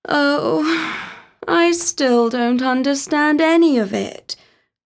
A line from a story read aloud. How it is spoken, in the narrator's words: sighed Talia